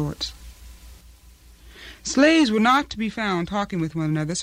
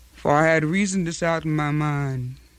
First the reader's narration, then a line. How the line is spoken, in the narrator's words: she said